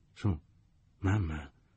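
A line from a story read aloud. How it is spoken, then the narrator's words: More uncertain voice. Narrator (Italian): ripeté con voce più incerta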